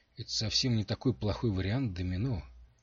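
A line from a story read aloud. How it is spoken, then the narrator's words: Soft gentle speech. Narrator (Russian): мягко сказал Джорд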